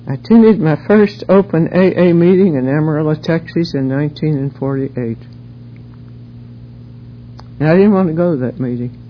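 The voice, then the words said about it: Southern Appalachian American accent. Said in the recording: “I'm sure you've picked up on the accent by now. I'm a Texan by marriage, but I'm a hillbilly. ... I grew up in the hills of North Carolina”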